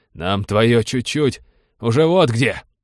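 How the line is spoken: Harsh bark. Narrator (Russian): рявкнул замыкающий

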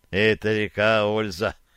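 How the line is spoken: Suddenly serious grumble. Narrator (Russian): проворчал вдруг посерьезневший глаз

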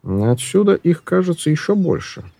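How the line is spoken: Plain. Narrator (Russian): сказал он

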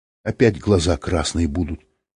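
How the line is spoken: Almost calm. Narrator (Russian): сказала она почти спокойно

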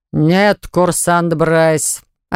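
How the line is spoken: Booming voice. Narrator (Russian): ответил ему зычным голосом куратор

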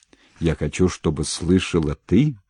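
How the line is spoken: Uncertain low bass voice. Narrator (Russian): подхватил неуверенным баском Васильев

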